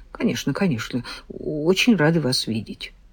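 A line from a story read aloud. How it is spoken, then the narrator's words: Hopeless mutter. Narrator (Russian): безнадежно кивнула и пробормотала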